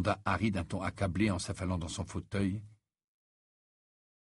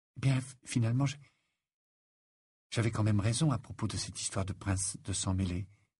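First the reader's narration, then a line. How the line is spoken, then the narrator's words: Timid. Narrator (French): dit-elle timidement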